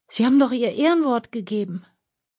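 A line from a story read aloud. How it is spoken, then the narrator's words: Groaning. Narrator (German): stöhnte Aljoscha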